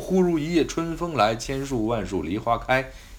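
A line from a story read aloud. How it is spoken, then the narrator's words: Plain. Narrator (Chinese): 说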